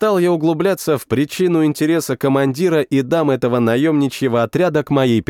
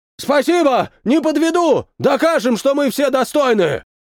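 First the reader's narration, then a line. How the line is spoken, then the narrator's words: Shouted. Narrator (Russian): Прокричал он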